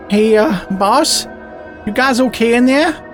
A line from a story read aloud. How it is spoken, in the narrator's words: Stacy called out